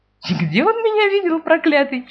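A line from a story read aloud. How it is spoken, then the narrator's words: Grandmother giggling. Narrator (Russian): хихикнула бабушка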